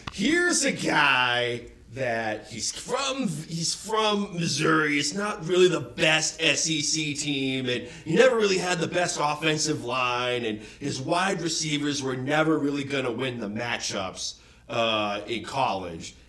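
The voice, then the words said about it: Bad Chris Collinsworth impression. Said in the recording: “I'm going to do a really bad impersonation of Chris Collinsworth.”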